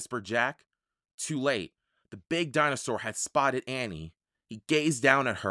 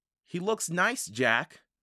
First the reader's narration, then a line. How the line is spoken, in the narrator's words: Annie said